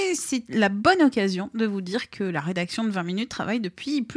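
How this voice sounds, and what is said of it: Usual voice. Nothing is said of it.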